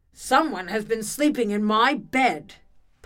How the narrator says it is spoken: Papa Bear bellowed

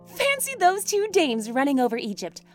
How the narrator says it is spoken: laughed

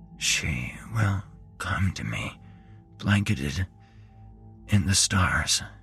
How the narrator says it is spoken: said so quietly I barely heard him

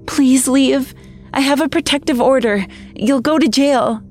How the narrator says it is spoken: I whimpered

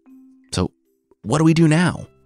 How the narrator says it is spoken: Monkey asked eagerly

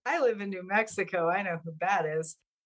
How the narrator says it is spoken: I laughed and I said

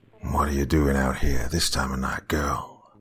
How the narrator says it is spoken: His voice was coarse, very low and gravelly

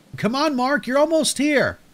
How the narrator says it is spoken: Breaking free from the spell of terror, I shouted again

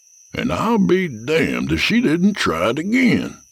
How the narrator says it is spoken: Jack said in a wondering tone

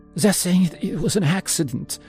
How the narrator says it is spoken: Anna cut in, her voice trembling

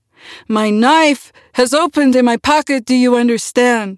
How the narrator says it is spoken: He called out

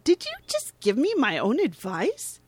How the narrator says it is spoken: They chuckle

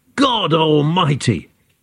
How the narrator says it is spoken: Josie jumped up and yelled

